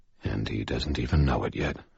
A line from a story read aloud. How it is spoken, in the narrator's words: I said quietly